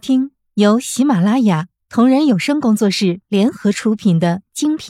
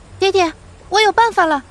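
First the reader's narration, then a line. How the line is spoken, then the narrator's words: Shouting. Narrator (Chinese): 他喊着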